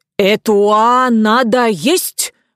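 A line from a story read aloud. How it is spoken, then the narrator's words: Vengeful shout. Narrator (Russian): мстительно крикнул он Мартемьянову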